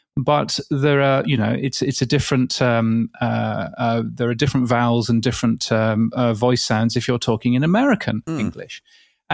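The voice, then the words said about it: British English accent. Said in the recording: “obviously in a British English accent”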